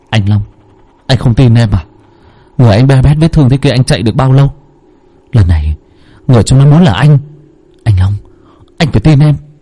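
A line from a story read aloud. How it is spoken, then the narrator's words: Sighing. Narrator (Vietnamese): Thành thở dài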